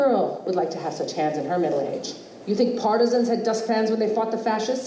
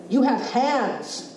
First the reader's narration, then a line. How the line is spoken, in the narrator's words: she exclaimed